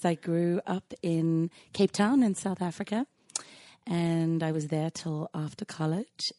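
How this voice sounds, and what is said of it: Hoarse, slightly lost voice. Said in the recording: “super sexy voice on today ... a good way to lose your voice a little bit ... to lubricate the voice”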